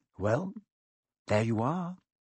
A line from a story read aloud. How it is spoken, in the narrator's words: Harry said quietly